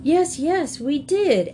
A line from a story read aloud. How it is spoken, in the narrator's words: exclaimed the other animals